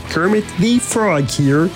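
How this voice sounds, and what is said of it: Kermit the Frog character voice. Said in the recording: “That's not bad. Dangerously good Kermit impression.”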